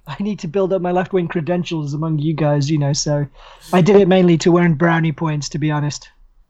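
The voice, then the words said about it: Hoarse, croaky voice. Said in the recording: “So I'm a bit hoarse ... why your voice is hoarse”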